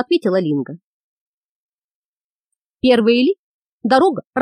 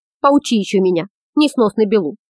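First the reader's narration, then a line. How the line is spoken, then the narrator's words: Irritated snapping. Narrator (Russian): раздраженно огрызнулся Ангус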